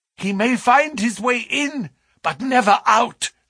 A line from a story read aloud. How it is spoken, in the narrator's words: cried